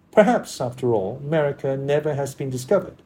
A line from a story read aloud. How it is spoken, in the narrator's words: said Mr